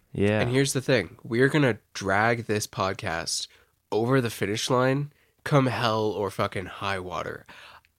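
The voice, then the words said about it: Sick, congested voice. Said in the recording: “I don't know if you can hear it in my voice... my reward... for getting through finals is COVID”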